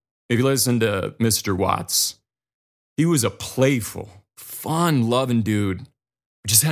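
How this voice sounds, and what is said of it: Usual voice. Nothing is said of it.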